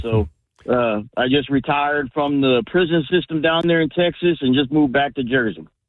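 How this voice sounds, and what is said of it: Slight Jersey accent with Texas tinge. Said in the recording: “you can hear the accent a little bit... your Jersey accent”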